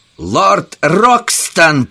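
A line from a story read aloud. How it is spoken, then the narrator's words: Shout. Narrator (Russian): крикнул он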